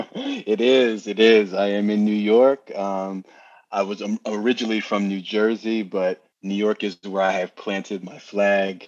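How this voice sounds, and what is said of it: New York accent. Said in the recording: “I love that accent. It's a New Yorker accent, right? ... the NJMY twang”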